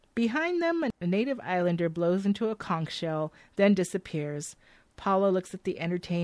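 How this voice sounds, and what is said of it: Usual voice. Nothing is said of it.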